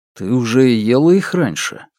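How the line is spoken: Plain. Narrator (Russian): спросил он

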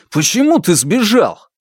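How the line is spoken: Shout. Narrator (Russian): выкрикнул он

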